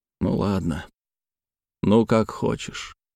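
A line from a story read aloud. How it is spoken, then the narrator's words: Muttered. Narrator (Russian): Терехов пробормотал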